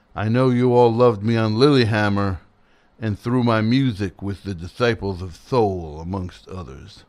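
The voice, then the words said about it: Imitates another person's voice. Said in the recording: “read this in a Little Steven voice.”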